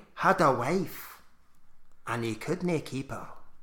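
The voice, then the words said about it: Attempted Scottish accent. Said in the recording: “I'll try and do a Scottish accent.”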